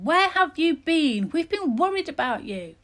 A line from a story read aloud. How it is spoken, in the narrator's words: cried